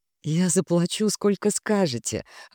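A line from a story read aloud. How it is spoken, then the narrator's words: Relieved exhale. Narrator (Russian): облегченно выдохнула я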